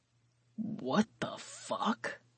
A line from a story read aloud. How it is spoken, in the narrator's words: Carr muttered